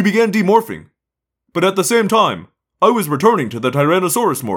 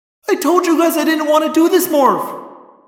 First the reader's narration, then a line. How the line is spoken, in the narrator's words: Cassie yelled